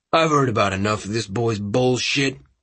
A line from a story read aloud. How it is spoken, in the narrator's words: growled